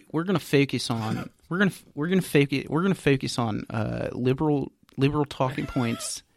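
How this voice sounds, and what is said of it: Put-on Philly accent. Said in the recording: “Is that Philly? ... It's Philly accent.”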